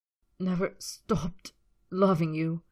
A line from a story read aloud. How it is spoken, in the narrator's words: Draco choked the words